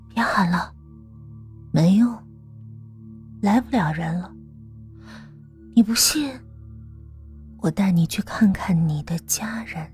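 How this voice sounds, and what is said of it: Eerie, hollow female ghost voice. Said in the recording (Chinese): “一个女人的声音传来，那声音很幽深，仿佛从另一个空间传来，让人毛骨悚然”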